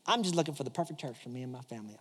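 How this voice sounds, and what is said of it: Put-on accent. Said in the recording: “I don't know if she had that accent, but makes it sound cooler.”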